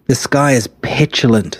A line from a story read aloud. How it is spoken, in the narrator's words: said his brother-in-law